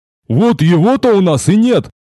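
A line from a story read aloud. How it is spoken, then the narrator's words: Muffled grumble. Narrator (Russian): глухо проворчал здоровяк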